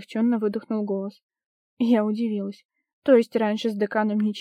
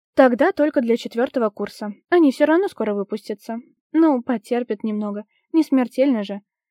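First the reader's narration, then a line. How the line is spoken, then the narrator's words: Authoritative tone. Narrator (Russian): Непререкаемым тоном произнесла декан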